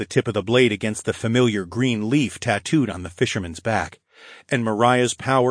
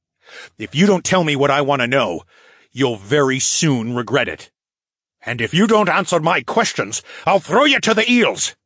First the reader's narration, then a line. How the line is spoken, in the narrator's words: Phineas snarled